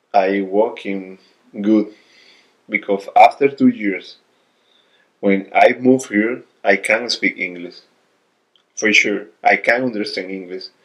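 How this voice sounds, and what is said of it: Strong non-native English accent. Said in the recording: “My accent is fuck. My my pronunciation is fuck.”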